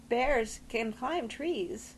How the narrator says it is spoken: Tess quavered

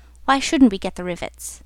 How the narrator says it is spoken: said the boilermaker in a reasonable tone

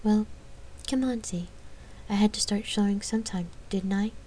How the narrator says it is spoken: She kept her voice light

